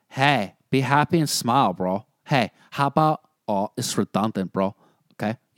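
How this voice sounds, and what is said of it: Bad Chris D'Elia impression. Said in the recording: “Sound like Chris D'Elia ... That was my bad impression of Chris D'Elia.”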